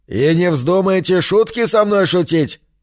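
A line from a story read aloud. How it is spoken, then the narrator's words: Shouted through door. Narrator (Russian): прокричал он через дверь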